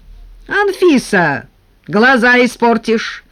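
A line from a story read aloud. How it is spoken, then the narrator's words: Distant shout. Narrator (Russian): кричал из сада Николай Никитич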